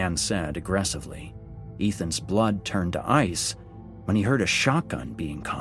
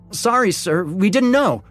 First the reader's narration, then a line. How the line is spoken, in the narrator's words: Tommy blurted out